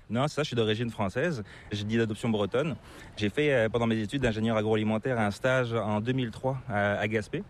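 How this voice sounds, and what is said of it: Slight hard-to-place non-Québécois accent. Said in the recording (French): “tu as une petite pointe d'accent qui est assez difficile de deviner ... c'est pas l'accent québécois”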